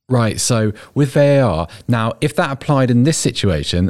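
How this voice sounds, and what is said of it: Posh voice imitating ordinary football fans. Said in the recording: “Your impression of fans ... That's my ordinary person voice ... diminish your posh accent to do an impression of football fans ... I kind of normalised myself”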